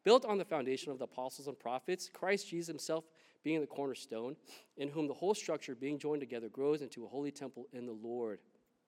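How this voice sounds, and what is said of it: Reading scripture very fast. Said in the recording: “I know I'm saying that so fast,”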